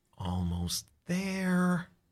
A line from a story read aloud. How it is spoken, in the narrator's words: she murmurs